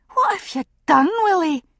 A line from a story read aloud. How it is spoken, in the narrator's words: she cried